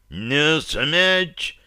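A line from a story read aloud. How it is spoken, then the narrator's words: Sudden desperate nearby howl. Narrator (Russian): Вдруг отчаянно и страшно взвыл где-то рядом северянин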